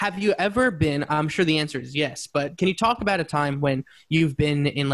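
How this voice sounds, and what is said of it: Usual voice. Nothing is said of it.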